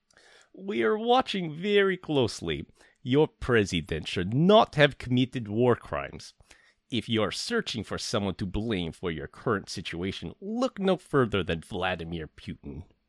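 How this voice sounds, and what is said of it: Thick put-on Russian accent. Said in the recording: “read this with a really thick Russian accent ... do my best and apologize to any Russian listeners out there if I butcher it”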